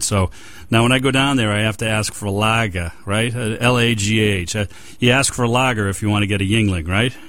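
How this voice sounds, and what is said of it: Boston accent. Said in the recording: “I'm from Boston. I have this funny accent.”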